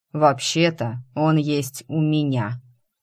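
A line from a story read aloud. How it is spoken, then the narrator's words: Voice from above. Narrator (Russian): раздалось сверху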